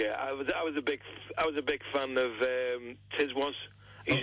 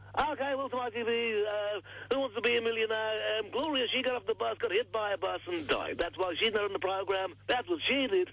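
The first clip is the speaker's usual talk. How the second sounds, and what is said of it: Impression of Chris Tarrant. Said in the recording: “Can you do Tarrant?”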